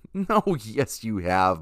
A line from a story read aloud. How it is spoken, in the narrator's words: Ma said, laughing